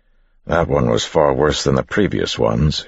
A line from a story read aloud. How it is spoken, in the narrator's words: said, cursing quietly to himself